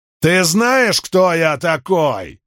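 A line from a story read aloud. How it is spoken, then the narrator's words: Shouting. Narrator (Russian): снова выкрикнул Сайджел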